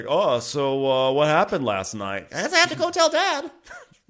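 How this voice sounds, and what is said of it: Impression of Eddie. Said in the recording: “My dual Eddie impersonations”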